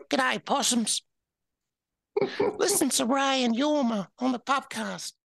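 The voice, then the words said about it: Dame Edna impression, Australian accent. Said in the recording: “I did a decent Dame Edna one though.”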